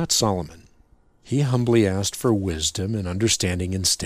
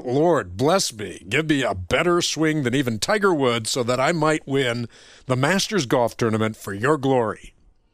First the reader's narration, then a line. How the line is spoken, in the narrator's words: blurting out